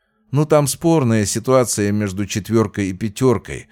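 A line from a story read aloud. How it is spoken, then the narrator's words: Plain. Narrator (Russian): ответил Фомин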